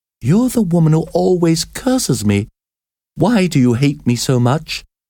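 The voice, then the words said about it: Trembling, fearful voice. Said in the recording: “she asked in a trembling voice.”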